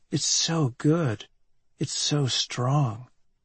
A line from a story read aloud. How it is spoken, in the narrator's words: she's whispering